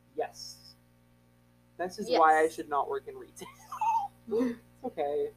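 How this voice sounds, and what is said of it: Usual voice. Nothing is said of it.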